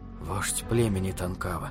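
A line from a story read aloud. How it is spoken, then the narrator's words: Muttering. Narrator (Russian): пробормотал Питер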